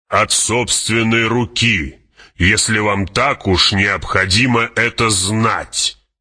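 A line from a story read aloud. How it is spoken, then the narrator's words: Snapped. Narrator (Russian): огрызнулся барон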